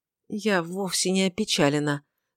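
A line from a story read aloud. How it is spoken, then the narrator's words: Indistinct mumble. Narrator (Russian): довольно невнятно пробормотала ее светлость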